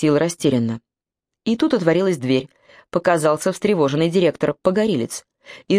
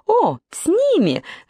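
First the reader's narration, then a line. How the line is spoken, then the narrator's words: Joyful exclamation. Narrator (Russian): радостно воскликнула панна Туня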